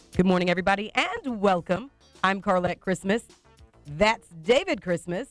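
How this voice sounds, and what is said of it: Slightly raspy voice. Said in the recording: “I'm still just a little bit raspy”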